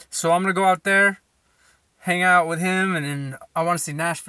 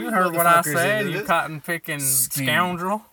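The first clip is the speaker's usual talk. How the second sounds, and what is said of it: Put-on southern accent. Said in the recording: “I don't know how to talk with a southern accent. I just do one that makes all the states happy.”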